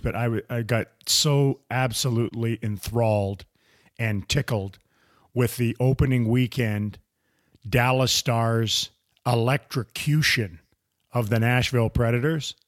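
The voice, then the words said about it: Strained, worn-out voice. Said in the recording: “I apologize for my voice, ... I left it all out there at AAC”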